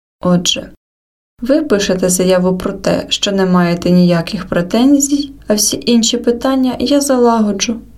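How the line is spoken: Relieved sigh. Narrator (Ukrainian): полегшено зітхнув

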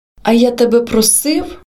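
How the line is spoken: Sudden exclamation. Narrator (Ukrainian): Вигукнув несподівано для себе

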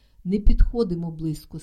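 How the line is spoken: Plain. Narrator (Ukrainian): сказала Вітка

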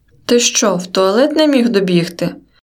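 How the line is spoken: Cheerful grinning question. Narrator (Ukrainian): Весело шкірячись, спитав мене Каша

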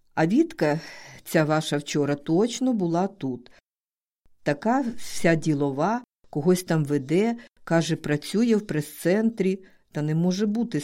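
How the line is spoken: Laughing. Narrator (Ukrainian): сміялася знов

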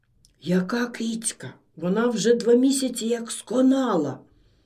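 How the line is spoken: Whispered. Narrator (Ukrainian): прошепотіла Гнатівна

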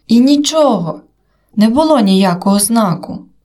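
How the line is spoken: Near-shout. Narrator (Ukrainian): майже вигукнув я

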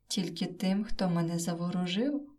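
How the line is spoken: Plain. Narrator (Ukrainian): відповів незнайомець

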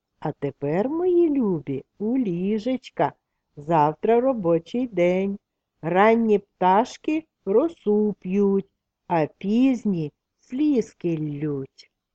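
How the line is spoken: Gentle, as to small children. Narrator (Ukrainian): Як до зовсім маленьких діток, лагідно вимовила

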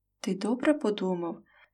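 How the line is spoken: Sighing, tearful, muffled. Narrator (Ukrainian): зітхнула і сховала в долоні заплакане обличчя

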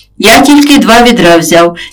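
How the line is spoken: Plain, father. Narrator (Ukrainian): відповів батько

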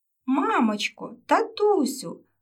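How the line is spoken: Joyful call. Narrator (Ukrainian): радісно покликала Еля

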